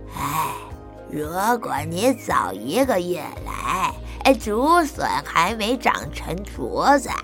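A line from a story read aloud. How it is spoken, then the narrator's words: Old man, mock-regretful sigh. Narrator (Chinese): 李爷爷装出很遗憾的样子，叹气说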